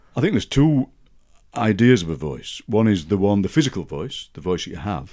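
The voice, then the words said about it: Broad Yorkshire accent. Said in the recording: “you have a very distinctive voice, a beautiful, broad Yorkshire accent.”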